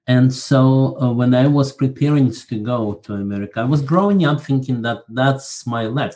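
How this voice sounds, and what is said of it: Slight Russian accent. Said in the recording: “You probably can detect a little bit of Russian accent here.”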